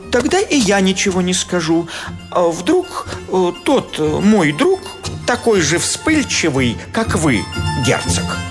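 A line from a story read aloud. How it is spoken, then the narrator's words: Timid babbling. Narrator (Russian): Приятель пролепетал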